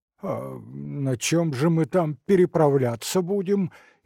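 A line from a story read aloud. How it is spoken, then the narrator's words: Frightened question. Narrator (Russian): испуганно спросил Копытовский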